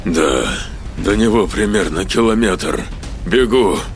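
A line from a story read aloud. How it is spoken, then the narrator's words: Breathless, through gritted teeth. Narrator (Russian): Задыхаясь, процедил археолог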